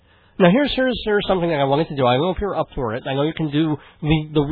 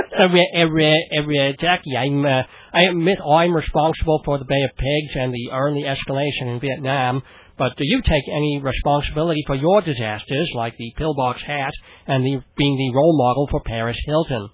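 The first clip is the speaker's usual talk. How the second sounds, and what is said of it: John F. Kennedy impression, Boston accent. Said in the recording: “this is Howard Stern pretty much doing John F. Kennedy. All it is it's a sort of a Boston accent because you throw era in front of everything. ... And that makes it Bostonian.”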